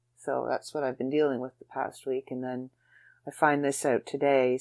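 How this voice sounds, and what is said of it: Tired, emotional voice. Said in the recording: “little emotional. I'm very tired because I've had very little sleep”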